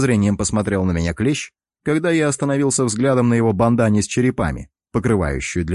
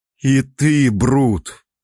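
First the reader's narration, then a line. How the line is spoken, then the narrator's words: Groaned. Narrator (Russian): Простонал я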